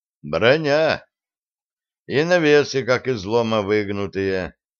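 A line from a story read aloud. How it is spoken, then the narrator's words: Glum. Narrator (Russian): произнес он уныло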